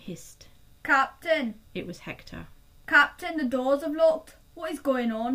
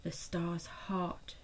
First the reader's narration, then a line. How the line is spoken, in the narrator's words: she breathed